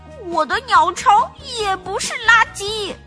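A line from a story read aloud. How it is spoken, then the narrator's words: Very loud shout. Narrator (Chinese): 叫喊声很大，连熊爸爸也听见了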